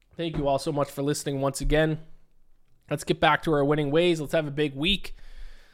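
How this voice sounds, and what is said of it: Strained, failing voice. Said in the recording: “Whew, my voice is going on me.”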